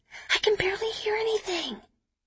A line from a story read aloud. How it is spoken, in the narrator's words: Kitty whispers to me